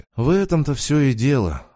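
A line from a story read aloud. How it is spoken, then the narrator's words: Sighing again. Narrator (Russian): вновь вздохнул Саня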